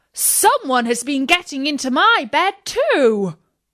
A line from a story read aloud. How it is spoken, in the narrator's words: each one cried